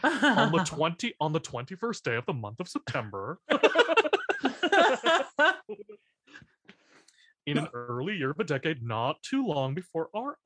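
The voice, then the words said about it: Imitates another person's voice. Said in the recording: “Tim Gunn would be my impression of anybody who has to narrate ... He just does the voice in the opening of Little Shop”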